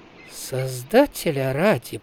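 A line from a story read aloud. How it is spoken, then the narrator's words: Horse muttering. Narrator (Russian): пробормотала конина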